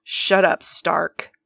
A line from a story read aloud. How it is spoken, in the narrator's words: Steve growled